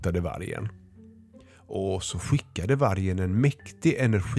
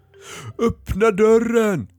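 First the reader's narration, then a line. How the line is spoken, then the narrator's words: Screamed. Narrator (Swedish): skrek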